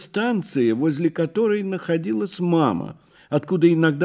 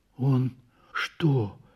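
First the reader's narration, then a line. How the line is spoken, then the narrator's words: Whispered question. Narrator (Russian): спросил шепотом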